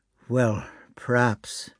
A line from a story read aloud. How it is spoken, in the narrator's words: said he with a sigh